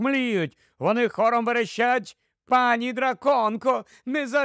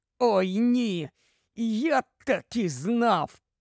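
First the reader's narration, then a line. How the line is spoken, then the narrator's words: Hoarse, in pain. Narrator (Ukrainian): знову ж таки хрипить крізь біль Рон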